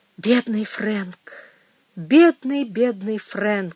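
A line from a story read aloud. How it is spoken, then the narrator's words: Sigh. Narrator (Russian): вздохнула она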